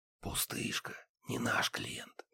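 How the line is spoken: Whispered. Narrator (Russian): прошептал

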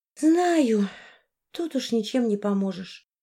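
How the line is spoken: Sigh. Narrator (Russian): вздохнула Арина

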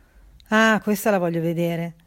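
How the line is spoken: Sarcastic. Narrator (Italian): disse con tono sarcastico

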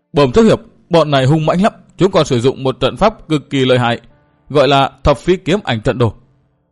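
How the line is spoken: Trembling speech. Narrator (Vietnamese): Tên lâu la run rẩy nói

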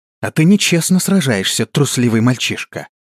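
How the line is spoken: Offended hiss. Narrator (Russian): обиженно прошипела она

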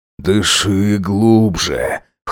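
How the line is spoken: Hoarse advice. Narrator (Russian): хрипло посоветовал он

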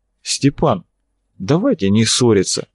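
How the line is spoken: Calm. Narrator (Russian): Арцулов говорил спокойно

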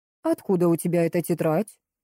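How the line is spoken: Stern question. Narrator (Russian): строго спросила

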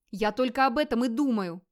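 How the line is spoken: Snapping back. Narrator (Russian): огрызнулся Гейр

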